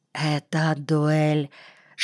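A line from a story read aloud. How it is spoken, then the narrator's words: Whisper. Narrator (Russian): шепотом сказала Кригерша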